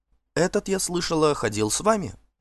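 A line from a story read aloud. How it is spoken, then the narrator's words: Whisper in ear. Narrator (Russian): шепнула ей на ухо Эрингерда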